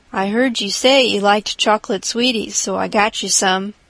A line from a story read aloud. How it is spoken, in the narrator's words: said